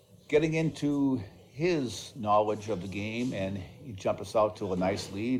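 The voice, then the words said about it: Boston accent. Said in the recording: “your Boston accent”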